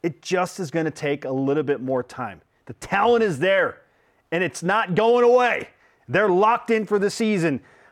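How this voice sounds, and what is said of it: Yelling, loud passionate delivery. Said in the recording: “I don't know why I'm yelling so much today, but clearly I'm passionate. ... I'm just going to yell at you for 10 minutes.”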